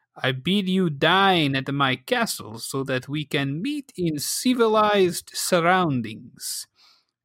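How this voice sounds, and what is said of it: Villain character voice with accent. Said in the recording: “I may have gotten the accent wrong, but I think that was pretty close to what he would say. ... did a wonderful job”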